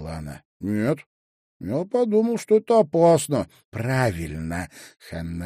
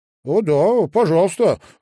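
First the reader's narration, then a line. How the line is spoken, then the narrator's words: Exclaimed. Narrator (Russian): воскликнул тот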